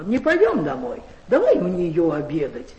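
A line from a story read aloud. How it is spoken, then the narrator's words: Loud. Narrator (Russian): Иван громко говорил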